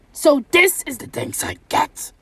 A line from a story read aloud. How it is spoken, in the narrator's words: roared the beast